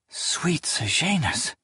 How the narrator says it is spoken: she whispered

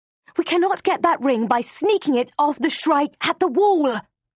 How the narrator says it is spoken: I hiss at her

